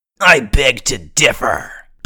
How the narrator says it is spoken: Burf sneered

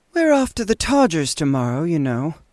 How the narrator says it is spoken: said Eula to me, yawning

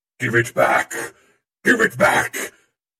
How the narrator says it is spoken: Over the roar of the storm, I could hear the blue-robed one yelling to the green-robed one

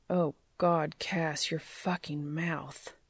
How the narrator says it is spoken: he groaned

